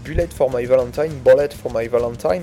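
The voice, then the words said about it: Band name in English accent. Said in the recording (French): “avec l'accent anglais”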